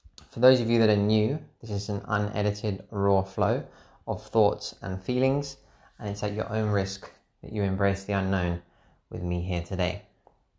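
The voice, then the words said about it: Relaxed, slow-paced voice. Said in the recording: “feeling super relaxed you can probably tell in my voice. ... it's gonna be quite a slow paced uh, podcast”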